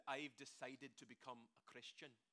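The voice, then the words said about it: Put-on Scottish accent. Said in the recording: “a Scottish preacher ... I wish I could preach the entire sermon in this accent”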